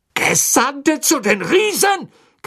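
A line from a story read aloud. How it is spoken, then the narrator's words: Shrieking, voice regained. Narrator (German): kreischte Fatsch, der nun offenbar seine Sprache wiedergefunden hatte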